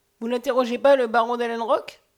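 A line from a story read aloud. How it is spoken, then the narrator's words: Mocking, hostile. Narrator (French): d'un ton railleur où il y avait de l'hostilité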